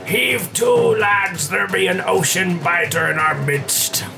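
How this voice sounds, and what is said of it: Pirate character voice. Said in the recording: “do the pirate voices”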